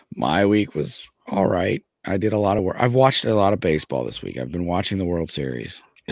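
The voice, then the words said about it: Hoarse, fading voice. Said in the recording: “losing your voice... for your throat”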